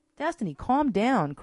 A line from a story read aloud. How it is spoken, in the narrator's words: cried Gabrielle